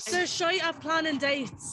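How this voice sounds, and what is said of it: Put-on British accent. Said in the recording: “Oh my god, that was really good accent.”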